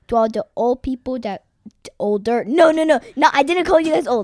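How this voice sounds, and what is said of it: Baby voice. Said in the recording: “as you were calling people old, your voice was turning more into a baby voice.”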